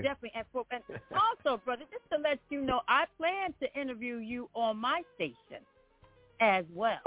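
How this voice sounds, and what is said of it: Tough New Jersey accent. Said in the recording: “y'all hear that accent. I know he said I'm from Columbia, but originally, that's why y'all hear this accent. I'm from New Jersey ... that's why y'all hear that tough kind of going on”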